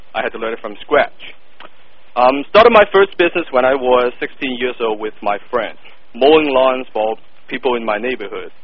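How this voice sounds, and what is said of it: Thick non-native English accent. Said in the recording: “As you can tell from my thick accent, English is not my first language.”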